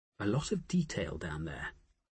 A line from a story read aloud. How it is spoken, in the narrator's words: Nicola murmured